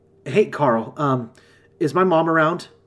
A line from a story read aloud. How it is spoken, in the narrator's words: I was panting as I spoke, still gasping to breathe